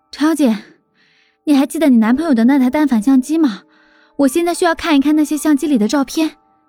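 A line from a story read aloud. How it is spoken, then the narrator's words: Slightly breathless. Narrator (Chinese): 微微喘息道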